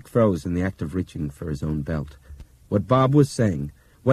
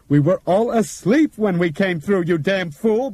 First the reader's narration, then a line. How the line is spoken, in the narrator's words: Bob shrieked into his face